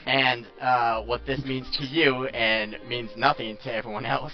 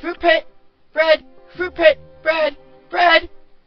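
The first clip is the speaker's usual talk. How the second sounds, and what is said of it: Mimics a crow's squawking voice. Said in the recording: “it looks at you with its beady little eyes and starts mimicking”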